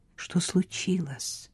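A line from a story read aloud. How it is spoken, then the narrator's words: Serious near-whisper. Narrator (Russian): спросила Хлоя почти шепотом, мгновенно забыв об озорстве и подшучивании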